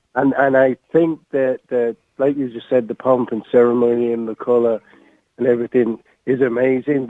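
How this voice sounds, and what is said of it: English accent. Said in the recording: “as you could tell from my accent, I'm English born of Irish descent”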